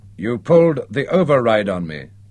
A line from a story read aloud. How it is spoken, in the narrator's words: he accused in a flat, passionless voice that did not betray his fury